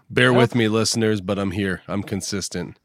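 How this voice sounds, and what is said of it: Rough voice from a cold. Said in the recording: “I sound like a hot steaming turd tonight. I'm dealing with this cold”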